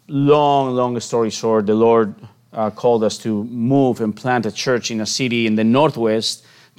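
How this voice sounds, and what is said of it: Spanish accent. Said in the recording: “I am born and raised in Spain, as my accent can tell”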